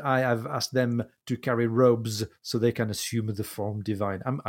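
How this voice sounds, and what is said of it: Put-on French accent in English. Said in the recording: “a French person trying to speak English ... I'm adding the accent.”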